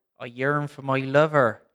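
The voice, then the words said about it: Put-on Bristol accent. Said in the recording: “she'd say that in Bristol accent”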